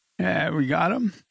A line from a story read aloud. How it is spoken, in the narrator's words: slurred